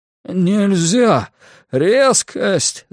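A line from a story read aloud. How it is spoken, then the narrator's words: Moaning. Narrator (Russian): застонал он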